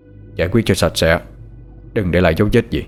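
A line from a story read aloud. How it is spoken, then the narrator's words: Cold. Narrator (Vietnamese): Thái nói với vẻ lạnh lùng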